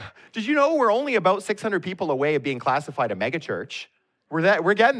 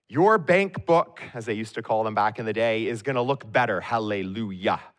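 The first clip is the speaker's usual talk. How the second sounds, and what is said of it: Imitated TV preacher voice. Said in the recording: “I practice imitating these guys. I got my mega church now.”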